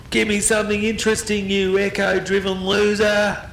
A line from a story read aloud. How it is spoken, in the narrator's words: screaming out with hateful flatulence